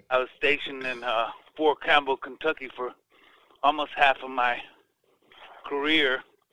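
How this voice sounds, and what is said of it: Accent others take for Cajun. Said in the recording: “that's why I got this accent. They think that I'm a Cajun or something.”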